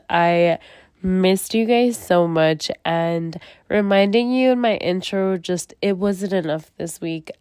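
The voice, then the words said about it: Voice sounds off from allergies. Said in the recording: “I hate sounding like this ... I sound a little different ... my allergies have really, honestly, guys, hit me”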